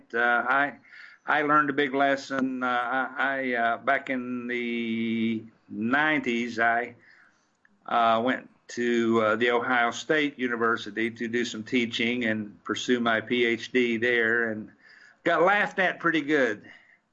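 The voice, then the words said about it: Southern American accent. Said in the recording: “refine my accent a little bit ... lovely Southern accents”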